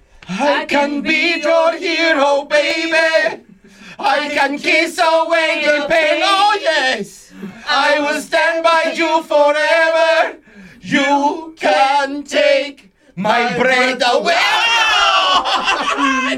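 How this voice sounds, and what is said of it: Sings in a put-on accent. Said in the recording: “Can I sing it in an accent?”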